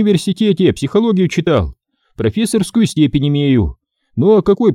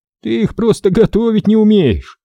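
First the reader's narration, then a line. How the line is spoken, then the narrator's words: Laughing. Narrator (Russian): рассмеялся Константин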